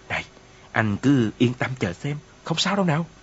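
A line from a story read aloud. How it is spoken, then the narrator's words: Whisper. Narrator (Vietnamese): Hà Trọc thì thầm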